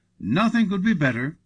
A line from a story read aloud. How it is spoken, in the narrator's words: cried Marco in reply